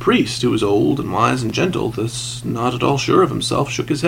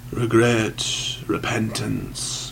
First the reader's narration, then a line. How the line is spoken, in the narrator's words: murmured the priest